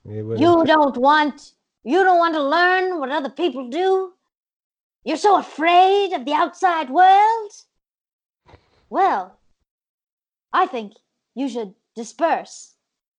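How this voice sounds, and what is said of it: Bad impression of another person's voice. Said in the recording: “just doing a bad impression”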